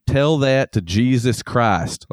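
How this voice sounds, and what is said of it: Put-on Southern accent. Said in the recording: “it has to be said in a Southern accent”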